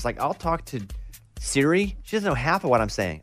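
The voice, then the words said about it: Regional American accent. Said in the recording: “I come in with my accent. Hey, y'all.”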